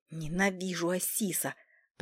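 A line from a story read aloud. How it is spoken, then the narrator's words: Hissing. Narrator (Russian): прошипел кот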